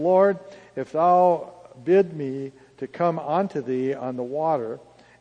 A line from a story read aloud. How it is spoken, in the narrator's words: said